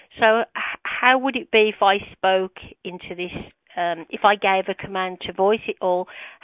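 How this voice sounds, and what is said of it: British accent. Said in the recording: “I have a British accent.”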